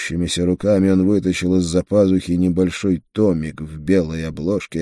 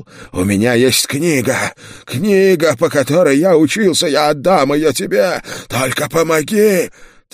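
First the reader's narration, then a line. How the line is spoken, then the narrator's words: Frightened howling. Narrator (Russian): Увидев оружие в моей руке, колдун взвыл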